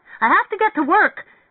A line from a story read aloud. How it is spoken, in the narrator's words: shouted apprehensively